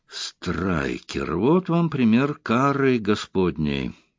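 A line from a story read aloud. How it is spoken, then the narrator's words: Muttered. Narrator (Russian): пробормотал Ярли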